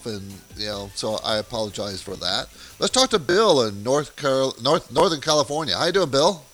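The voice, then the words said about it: Scratchy voice from a cold. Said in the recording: “I'm fighting a cold towards the tail end of the cold, so my voice might sound a little off ... It's just my throat. It's kind of scratchy.”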